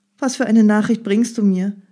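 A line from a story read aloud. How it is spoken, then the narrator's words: Calling out. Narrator (German): rief sie ihm entgegen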